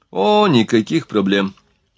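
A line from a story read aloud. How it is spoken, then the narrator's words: Calm. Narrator (Russian): спокойно сказал Бель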